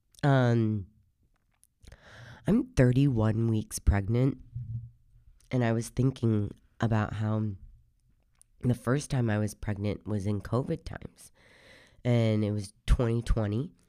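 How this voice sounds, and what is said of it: Hoarse, deep voice with a cold. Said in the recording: “I sound a little hoarse because I currently have a cold. So if I sound a little different, that is why... My voice is typically already hoarse and deep. So we're just getting a little extra today”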